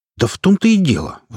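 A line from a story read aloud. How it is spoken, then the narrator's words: Indignant troll. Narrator (Russian): возмущенно заявил тролль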